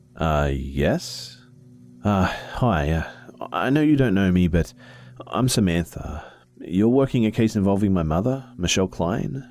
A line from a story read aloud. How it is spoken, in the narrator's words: I was a bit on edge, so I hesitantly answered